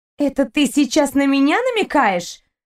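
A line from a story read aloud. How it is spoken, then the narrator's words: Angry shout. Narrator (Russian): Зло крикнула ему Кристина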